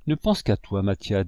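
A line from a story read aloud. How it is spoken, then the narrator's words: Moved, emotional voice. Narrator (French): dis-je d'une voix émue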